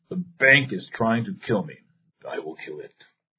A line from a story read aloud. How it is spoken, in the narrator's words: The old general growled proudly